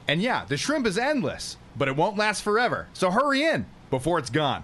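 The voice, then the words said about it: Silly put-on commercial voice. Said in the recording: “That's his stupid voice.”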